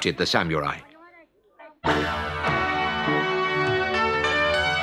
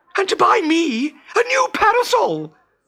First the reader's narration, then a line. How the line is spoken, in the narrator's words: squeaked the young girl